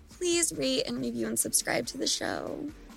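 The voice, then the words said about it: Sultry, seductive voice. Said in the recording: “did you hear me put my sexy voice on ... to ask that?”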